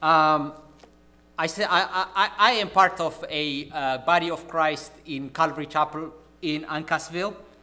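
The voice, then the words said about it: Non-local foreign accent. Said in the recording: “from my accent I am not originally from Connecticut ... I think my accent betrays me”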